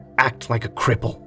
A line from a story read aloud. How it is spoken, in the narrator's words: a hissed